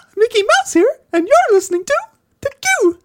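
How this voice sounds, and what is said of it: Mickey Mouse cartoon character impression. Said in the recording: “What a voice! ... that Mickey Mouse ... listener voice impersonation”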